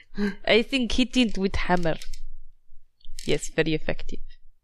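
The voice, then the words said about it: Put-on foreign accent. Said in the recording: “Don't know what this accent is anymore.”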